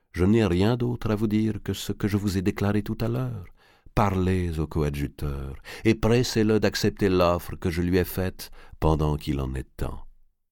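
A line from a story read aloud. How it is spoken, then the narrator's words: Calm. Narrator (French): dit Ptolémée calmement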